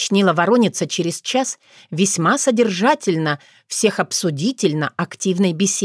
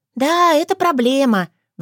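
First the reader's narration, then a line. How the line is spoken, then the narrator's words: Sigh. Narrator (Russian): вздохнула Норуш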